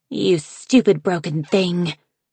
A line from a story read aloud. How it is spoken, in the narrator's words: she hissed balefully